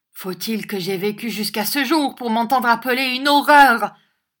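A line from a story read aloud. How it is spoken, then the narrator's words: Sudden convulsive shout. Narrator (French): cria tout à coup Mademoiselle Nag, qui, dans ses convulsions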